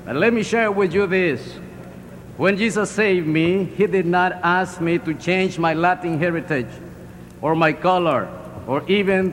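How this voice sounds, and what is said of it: Heavy Latin American accent. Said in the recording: “you can detect that by my heavy accent, deep from the south of the border”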